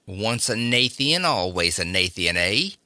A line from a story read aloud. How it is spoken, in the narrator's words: snarled Spencer